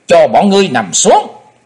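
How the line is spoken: Loud barked command. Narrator (Vietnamese): Chí Tôn quát to

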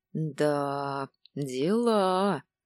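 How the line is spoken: Easy drawl. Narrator (Russian): протянул Зень, разряжая обстановку

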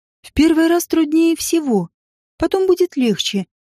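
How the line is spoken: Sighing. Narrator (Russian): вздохнула рядом со мной Ида

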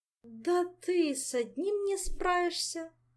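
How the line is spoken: Laughing. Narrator (Russian): засмеялся шеф

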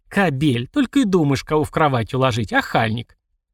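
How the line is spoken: Chuckle, then speaking. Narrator (Russian): Влад хохотнул и сказал

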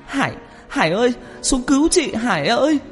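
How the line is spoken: Terrified wailing scream. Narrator (Vietnamese): Hồng sợ hãi tột độ, chị gào khóc thảm thiết, hét lớn

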